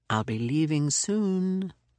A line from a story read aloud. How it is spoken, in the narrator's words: he purred